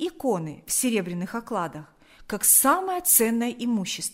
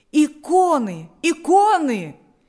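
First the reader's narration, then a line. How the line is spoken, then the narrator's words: Several voices shouting. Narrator (Russian): кричали несколько голосов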